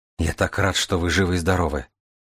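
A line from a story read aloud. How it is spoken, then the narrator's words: Young man muttering. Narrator (Russian): пробормотал молодой человек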